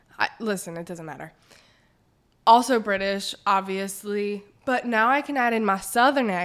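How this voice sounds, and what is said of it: Usual voice. Nothing is said of it.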